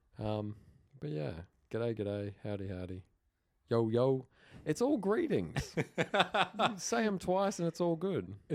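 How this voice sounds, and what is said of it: Australian accent. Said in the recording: “our Australian accent”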